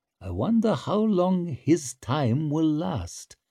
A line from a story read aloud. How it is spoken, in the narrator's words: murmured Sulphur